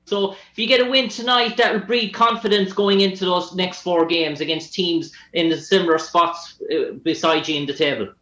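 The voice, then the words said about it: Irish accent. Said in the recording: “Ireland ... I like your accent. It's tough ... I was too much listening to your accent.”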